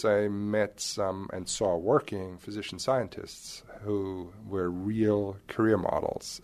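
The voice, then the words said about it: Slight German accent. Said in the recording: “a bit of an accent ... you're a native of Germany ... what used to be known as East Germany”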